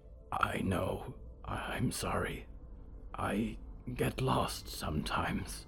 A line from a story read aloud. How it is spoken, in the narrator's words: Diggory whispered